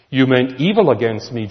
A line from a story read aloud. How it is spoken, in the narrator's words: Joseph says